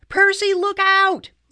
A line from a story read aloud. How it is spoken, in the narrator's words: Annabeth cried